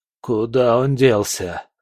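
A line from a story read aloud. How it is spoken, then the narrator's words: Groaning. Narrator (Russian): простонал Легба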